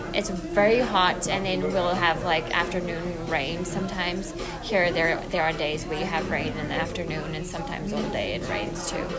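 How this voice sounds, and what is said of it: South African accent. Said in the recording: “the South African accent ... people that understand my accent”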